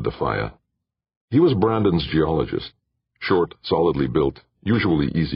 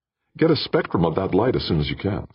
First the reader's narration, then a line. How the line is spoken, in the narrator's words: said Brandon